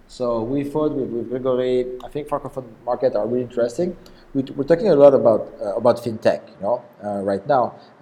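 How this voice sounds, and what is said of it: Strong French accent. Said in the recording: “I have this really strong French accent.”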